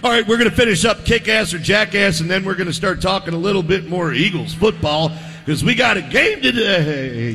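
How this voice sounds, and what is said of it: Hoarse, worn-out voice. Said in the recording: “if it sounds like I'm losing my voice, I already have”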